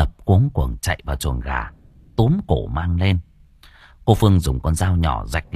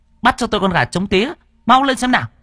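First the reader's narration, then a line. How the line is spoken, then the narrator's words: Woman shouting. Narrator (Vietnamese): Cô quát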